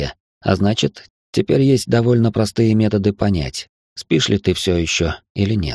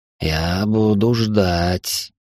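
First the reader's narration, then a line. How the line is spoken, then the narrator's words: Hiss close to ear. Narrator (Russian): прошипело у меня под ухом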